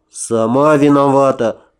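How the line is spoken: Grumbled. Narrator (Russian): буркнул я

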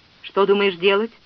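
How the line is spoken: Plain. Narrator (Russian): спросил Нерешев

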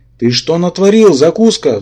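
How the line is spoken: Angry monster roaring. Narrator (Russian): взревел обозленный монстр

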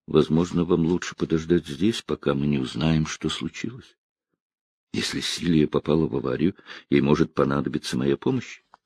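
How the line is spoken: Mumble. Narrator (Russian): Гордон пробормотал

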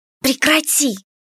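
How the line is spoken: Hissing. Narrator (Russian): прошипела Кико

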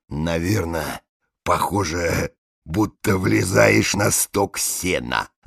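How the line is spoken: Near whisper. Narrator (Russian): Лесоруб, который собирался вступить в разговор, сказал мне почти шепотом

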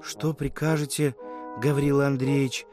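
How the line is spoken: Quiet voice. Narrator (Russian): проговорила она тихим голосом

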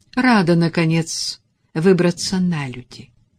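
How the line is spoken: Dry reply. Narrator (Russian): сухо ответила ему Мелисса

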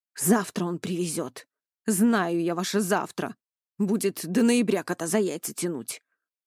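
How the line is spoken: Grumbling. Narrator (Russian): Проворчал Иван Палыч

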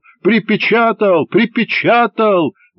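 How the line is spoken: Shouted out. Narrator (Russian): выкрикнул кто-то

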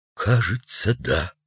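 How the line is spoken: Quiet, reluctant editor. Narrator (Russian): произнес тихо редактор, не смея отрицать, но и не желая, чтобы сотрудники услышали об этом

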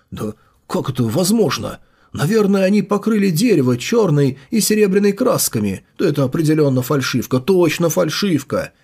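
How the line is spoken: Frightened mutter. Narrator (Russian): Испуганно пробормотал принц, изрядно струхнув

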